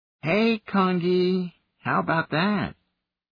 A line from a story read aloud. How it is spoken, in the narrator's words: The chimney cooed at the little gorilla